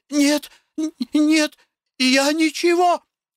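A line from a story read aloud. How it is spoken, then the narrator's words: Frightened babbling. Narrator (Russian): испуганно залепетала девушка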